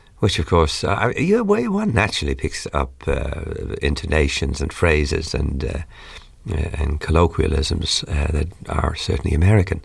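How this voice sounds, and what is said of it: Irish-English accent with American intonations. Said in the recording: “you've got a terrible American accent ... you've lost your Irish accent. You've become terribly American. But to people over here, of course, I've got a sort of Irish-English accent.”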